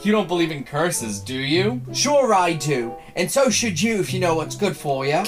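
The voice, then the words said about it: Good put-on Cockney accent. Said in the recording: “It's a really good Cockney accent so far.”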